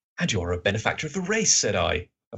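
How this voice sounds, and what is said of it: Character voice for a story narrator. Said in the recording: “That's Watson. That's my Watson voice.”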